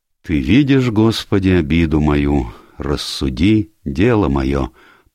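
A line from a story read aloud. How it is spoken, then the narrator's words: Mutter. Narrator (Russian): пробормотал мистер Энтвисл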